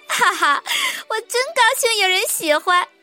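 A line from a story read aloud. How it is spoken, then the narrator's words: Laughing heartily. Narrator (Chinese): 杰尼夫大笑着说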